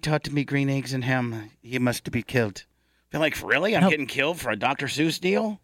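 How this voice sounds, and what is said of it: Usual voice. Nothing is said of it.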